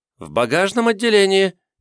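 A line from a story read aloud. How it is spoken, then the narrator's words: Squeak then cough. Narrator (Russian): пискнул и закашлялся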